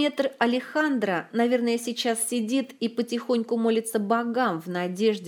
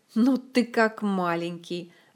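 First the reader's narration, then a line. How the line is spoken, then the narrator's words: Laughing. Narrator (Russian): рассмеялся Астуриас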